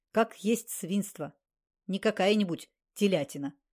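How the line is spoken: Snorting. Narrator (Russian): Наташа фыркнула

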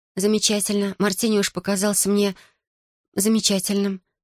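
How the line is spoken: Embarrassed mumble. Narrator (Russian): промямлила я, смутившись своего косноязычия

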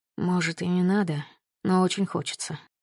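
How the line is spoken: Mumble. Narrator (Russian): пробормотал Глеб

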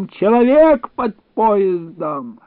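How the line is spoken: Panicked, unrecognizable shout. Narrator (Russian): кто-то крикнул не своим голосом

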